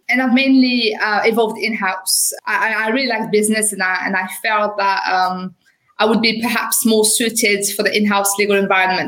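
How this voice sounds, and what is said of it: French accent. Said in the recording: “I qualified as a lawyer in France. Obviously, you will have noticed with my accent.”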